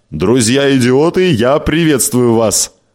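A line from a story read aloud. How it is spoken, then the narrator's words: Laughing. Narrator (Russian): Барнетт рассмеялся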